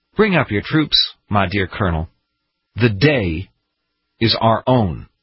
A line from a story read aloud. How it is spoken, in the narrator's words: Washington, in his calm and soft voice, said